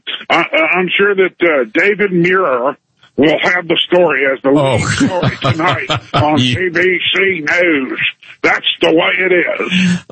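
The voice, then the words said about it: Old-school broadcaster announcer voice. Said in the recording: “that's a very nice accent there, my friend. It was sort of like a Walter Cronkite Howard Cosell fusion”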